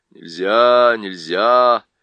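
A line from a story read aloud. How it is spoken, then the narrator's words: Sleepy repetition. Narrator (Russian): сонно повторила Уго-го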